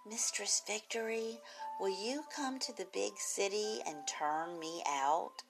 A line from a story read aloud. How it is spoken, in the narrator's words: a soft male voice who whispered